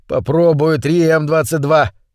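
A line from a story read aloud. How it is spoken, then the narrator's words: Roaring over static. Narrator (Russian): проревел он сквозь нарастающие разряды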